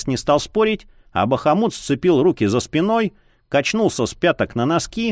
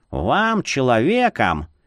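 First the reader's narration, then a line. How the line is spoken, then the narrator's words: Lecturing tone. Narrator (Russian): менторским тоном изрек он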